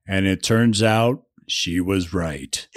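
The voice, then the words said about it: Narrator voice. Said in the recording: “do my narrator voice”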